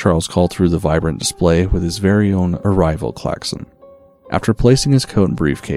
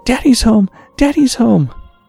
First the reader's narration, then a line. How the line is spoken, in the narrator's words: Simon screaming